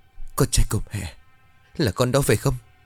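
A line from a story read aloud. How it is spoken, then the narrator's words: Tearful trembling mother. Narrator (Vietnamese): Bà Hạnh hai tay run rẩy nói trong nước mắt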